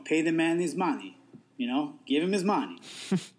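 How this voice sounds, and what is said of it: Bad accent imitating Rounders line. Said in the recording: “That's a Rounders reference for all of you people. It's not an actually like really bad accent, although it is a bad accent. But in the movie, it's bad, too.”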